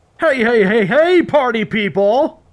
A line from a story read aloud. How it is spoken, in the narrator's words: The DJ boomed